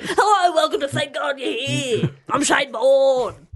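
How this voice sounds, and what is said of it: Imitates another person's voice. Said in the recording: “my impression of ... That's spot on. ... It's not bad.”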